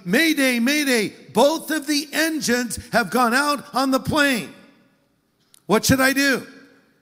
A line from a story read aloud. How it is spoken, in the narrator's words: the pilot calls back shouting